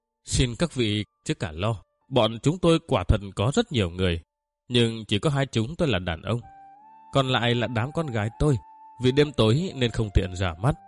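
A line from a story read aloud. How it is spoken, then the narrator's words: Laughing loudly. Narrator (Vietnamese): cười lớn, nói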